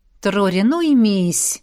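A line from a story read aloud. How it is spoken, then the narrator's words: Sighing. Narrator (Russian): вздохнул ректор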